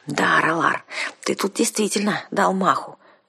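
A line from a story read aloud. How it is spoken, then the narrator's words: Reproachful whisper. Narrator (Russian): укоризненно шепнула я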